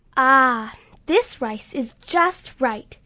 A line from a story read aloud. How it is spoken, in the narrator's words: she said happily